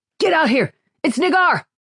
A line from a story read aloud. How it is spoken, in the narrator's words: Jenin shouted